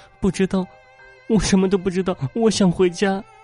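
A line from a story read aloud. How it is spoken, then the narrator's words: Crying. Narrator (Chinese): 小丽哭着说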